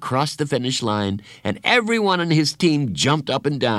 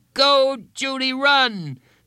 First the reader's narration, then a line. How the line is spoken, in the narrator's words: shouted louder than anyone